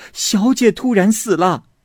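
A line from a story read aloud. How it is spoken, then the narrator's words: Panicked shouting. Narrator (Chinese): 全家都惊慌的呼叫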